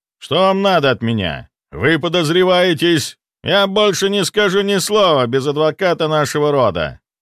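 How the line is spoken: Rude interruption. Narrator (Russian): Грубо прервал он

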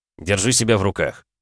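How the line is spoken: Slightly sterner. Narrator (Russian): чуть более строго произнес глава клана

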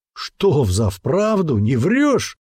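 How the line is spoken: Wheezing between laughs. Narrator (Russian): Между приступами смеха просипел Остах

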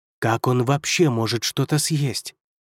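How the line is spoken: Curious mutter. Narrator (Russian): пробормотал Юнгуань, невольно проникаясь любопытством

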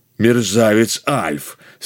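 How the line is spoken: Fierce growl. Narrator (Russian): свирепо зарычал драконистый жеребец

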